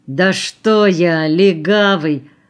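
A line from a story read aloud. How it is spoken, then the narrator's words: Offended drawl. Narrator (Russian): обиженно протянул Калюха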